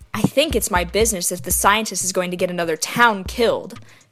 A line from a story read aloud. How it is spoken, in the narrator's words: said sharply